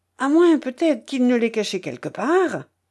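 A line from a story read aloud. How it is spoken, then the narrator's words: Several voices, more violent exclaiming. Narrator (French): s'exclamèrent d'autres voix plus violemment encore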